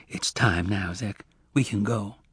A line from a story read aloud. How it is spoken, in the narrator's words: whispered